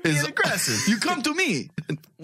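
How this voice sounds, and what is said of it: Bad Italian mafia-style impression. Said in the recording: “What are you, Italian? ... That was horrible. That was so bad. ... That's Mafia Arnold. ... It's all the same voice.”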